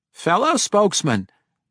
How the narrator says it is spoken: Regis began tentatively, his voice cracking into a squeak

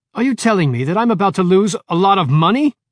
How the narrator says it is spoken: Cavendish screamed

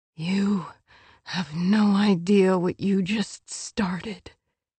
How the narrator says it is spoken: he whispered in her ear

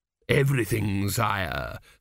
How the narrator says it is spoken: said Dios smoothly

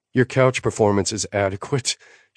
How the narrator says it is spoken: she panted

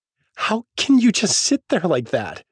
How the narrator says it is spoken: She cries

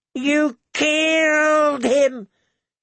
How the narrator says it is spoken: he wailed

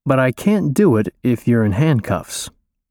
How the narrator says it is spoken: I say slowly

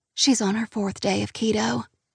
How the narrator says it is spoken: Lily whispers

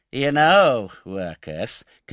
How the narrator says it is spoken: continued Noah, emboldened by Oliver's silence, and speaking in a jeering tone of affected pity, of all tones the most annoying

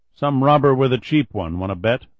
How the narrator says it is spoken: Douglas asked

